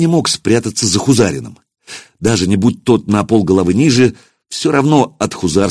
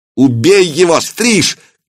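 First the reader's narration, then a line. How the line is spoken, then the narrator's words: Shout. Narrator (Russian): крикнул Акиба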